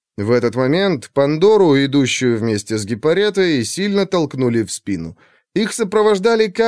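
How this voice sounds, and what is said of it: Usual voice. Nothing is said of it.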